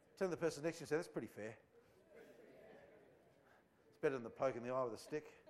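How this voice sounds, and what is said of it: Australian accent. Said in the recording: “you're keeping up with the Australianism all right? ... I'm just putting on an Aussie accent”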